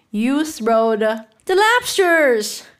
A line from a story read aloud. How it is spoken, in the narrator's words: shouted the griffin with a bound into the air